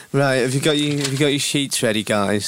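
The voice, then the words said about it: Imitates another person's voice. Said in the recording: “Do you want me to do an impression of producer Ben? ... he speaks a bit like this”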